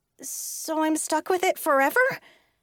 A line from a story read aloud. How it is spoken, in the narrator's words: asked, my voice rising